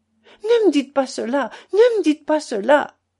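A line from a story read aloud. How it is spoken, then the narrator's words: Crying out, weeping harder. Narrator (French): s'écria-t-elle en pleurant davantage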